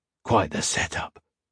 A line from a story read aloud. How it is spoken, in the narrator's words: Cook whispered